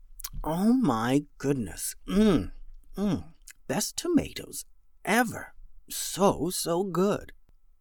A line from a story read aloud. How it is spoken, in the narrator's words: It mumbled